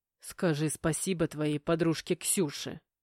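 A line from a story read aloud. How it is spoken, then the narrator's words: Displeased growl. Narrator (Russian): недовольно прорычал Игнат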